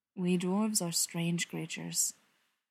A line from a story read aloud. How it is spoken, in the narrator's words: Thorin says, and his tone is gentle and soft and so very intimate